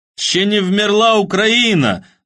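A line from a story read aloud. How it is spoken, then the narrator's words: Pleased shout. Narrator (Russian): довольно выкрикнул Ханыков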